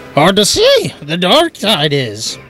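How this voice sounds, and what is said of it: Yoda voice with Irish accent. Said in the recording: “Trying to sound Irish. Yoda was Irish all of a sudden.”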